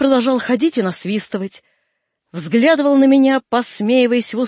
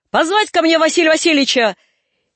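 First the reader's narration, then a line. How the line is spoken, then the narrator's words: Shout. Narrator (Russian): крикнул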